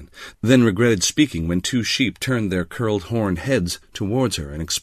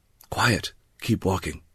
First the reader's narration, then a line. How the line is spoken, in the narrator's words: Beck whispered